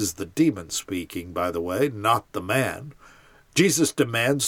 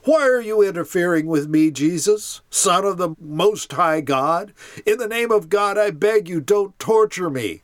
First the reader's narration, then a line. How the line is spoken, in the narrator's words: With a shriek, screams